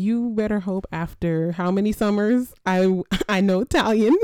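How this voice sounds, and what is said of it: Usual voice. Nothing is said of it.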